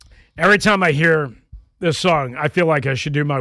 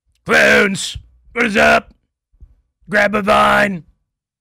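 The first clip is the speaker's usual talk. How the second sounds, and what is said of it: Imitates another person's voice. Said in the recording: “my worst Jim Rome impersonation”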